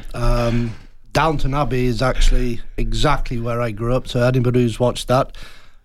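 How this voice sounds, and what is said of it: Northern English Yorkshire accent. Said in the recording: “I can tell by the accent... an accent like yours... North of England, Yorkshire, to be precise”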